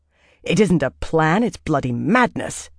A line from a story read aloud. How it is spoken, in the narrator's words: Birgitta said sharply